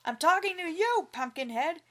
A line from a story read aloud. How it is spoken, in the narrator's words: yelled the farmer